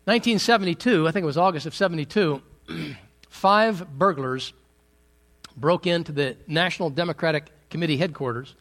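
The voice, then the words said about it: Hoarse voice. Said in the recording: “I'm fighting a little bit of a bug or something, so if I sound a little hoarse, it's because I am”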